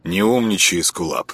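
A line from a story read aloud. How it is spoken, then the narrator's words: Gloomy, through teeth. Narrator (Russian): мрачно процедил Петька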